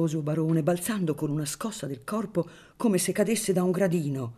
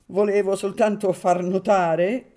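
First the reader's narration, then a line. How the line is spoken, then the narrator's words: Added while laughing. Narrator (Italian): soggiunse ridendo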